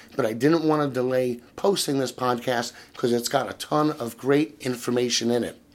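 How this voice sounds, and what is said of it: Slightly hoarse voice. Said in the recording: “my voice is still a little hoarse”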